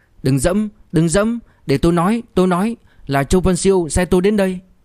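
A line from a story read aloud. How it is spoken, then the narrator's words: Hurried, loud, startled. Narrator (Vietnamese): Gã thật không ngờ cô bé thanh thuần này lại hung hăng như vậy, vội vàng lớn tiếng nói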